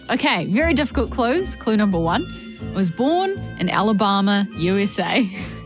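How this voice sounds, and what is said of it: New Zealand accent. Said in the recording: “I'm going to say it in a Kiwi accent, which is what both of us have.”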